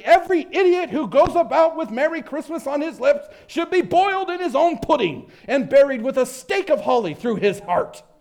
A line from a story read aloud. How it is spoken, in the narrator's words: said Scrooge indignantly